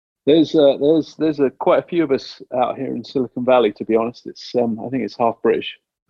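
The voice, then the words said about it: British accent. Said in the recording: “with your U.K. accent”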